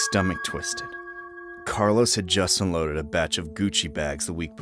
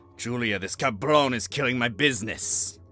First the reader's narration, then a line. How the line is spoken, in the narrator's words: Carlos growled